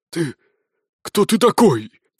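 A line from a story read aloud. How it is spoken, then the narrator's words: Hoarse wheezing general. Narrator (Russian): прохрипел генерал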